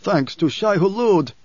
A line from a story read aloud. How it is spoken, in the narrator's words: Stilgar cried, running up to Paul